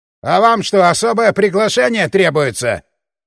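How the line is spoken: Triumphant barking. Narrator (Russian): рявкнул воодушевленный триумфом бармен

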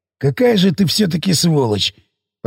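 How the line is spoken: Complaining. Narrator (Russian): посетовал Сиплый

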